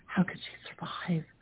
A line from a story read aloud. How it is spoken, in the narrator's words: barely still alive, repeating in a whisper